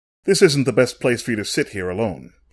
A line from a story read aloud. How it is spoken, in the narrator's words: said curtly